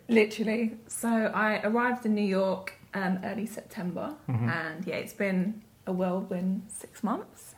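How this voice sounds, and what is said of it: Southwest London English accent. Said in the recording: “He spotted the accent ... pure Vauxhall? Is that a classic Vauxhallian accent? ... From Southwest London, yeah.”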